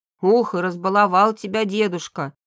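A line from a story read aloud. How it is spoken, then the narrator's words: Grumbling. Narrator (Russian): продолжил ворчать Кирилл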